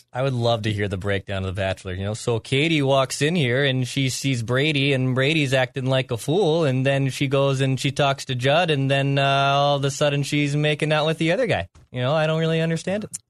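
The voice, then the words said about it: Vague put-on Canadian accent. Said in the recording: “Canadian accent. Just the vague accent is very good.”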